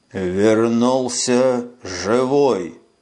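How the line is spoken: Hoarse, muffled. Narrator (Russian): прохрипел голос из-под бинтов

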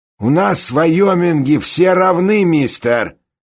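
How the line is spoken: Loud public announcement. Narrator (Russian): громко на публику объявил Ради

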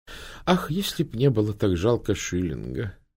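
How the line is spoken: Sighing. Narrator (Russian): вздохнула мисс Палмер

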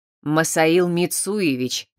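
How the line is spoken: Stern correction. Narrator (Russian): строго поправил служитель

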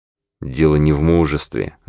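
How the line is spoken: Quiet, dejected voice. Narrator (Russian): ответил он тихим упавшим голосом

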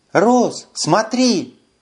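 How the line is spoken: Exclaiming. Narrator (Russian): воскликнула Карара

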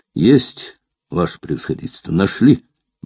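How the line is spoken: Quiet report. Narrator (Russian): негромко доложил он

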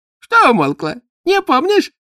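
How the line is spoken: Giggling. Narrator (Russian): хихикнул экзаменатор

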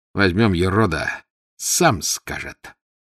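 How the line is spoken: Menacing. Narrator (Russian): грозно урядник

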